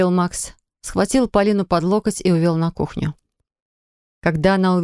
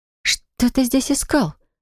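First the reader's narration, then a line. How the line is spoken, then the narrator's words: Stunned question. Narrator (Russian): спросила она ошарашенным голосом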